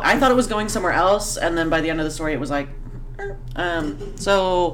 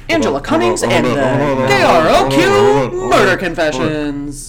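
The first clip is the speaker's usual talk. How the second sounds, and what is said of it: Radio DJ voice. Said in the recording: “read it in your best, like, radio DJ voice. ... It was okay. I'll give it a 6 out of 10.”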